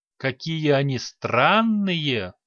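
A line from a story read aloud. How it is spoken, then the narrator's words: Thoughtful drawl. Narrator (Russian): задумчиво протянула гимнастка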